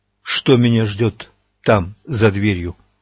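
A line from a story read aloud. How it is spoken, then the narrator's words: Calm question. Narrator (Russian): спокойно спросил Эдди Роланда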